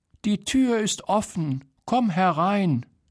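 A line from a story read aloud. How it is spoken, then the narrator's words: Grandmother calling out. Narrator (German): rief die Großmutter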